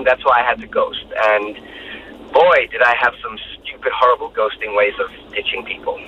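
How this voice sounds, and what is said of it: American accent. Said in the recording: “that dude with the American accent”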